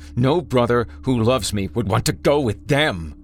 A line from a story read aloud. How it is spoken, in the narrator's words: he snarled, spit flying from his slack jaw, teeth melting and falling onto the floor with clumps of his skin